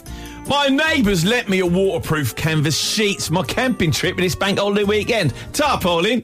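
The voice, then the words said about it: Put-on London English accent. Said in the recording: “English accent, please. He doesn't say which accent, so I'll just try London and see if it works.”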